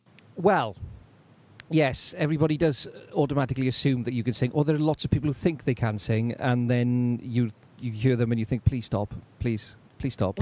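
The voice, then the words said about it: Lovely South Wales accent. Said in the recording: “You've got a lovely accent. I think it's lovely. ... your lovely voice ... deepest, darkest South Wales valleys”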